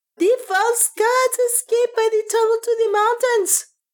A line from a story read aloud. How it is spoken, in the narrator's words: he screamed